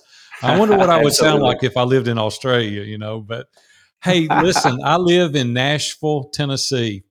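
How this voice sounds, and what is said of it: Southern American drawl. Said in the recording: “I'm pretty Southern and I've got that Southern drawl”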